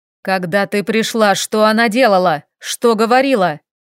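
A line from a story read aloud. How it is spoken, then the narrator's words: Sudden shouting investigator. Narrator (Russian): Вдруг закричал следователь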